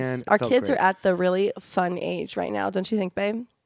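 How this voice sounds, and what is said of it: Slightly raspy voice. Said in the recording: “I'm getting over a cold, so sorry if I sound a little raspy.”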